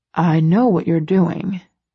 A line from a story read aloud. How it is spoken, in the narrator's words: he murmurs, amused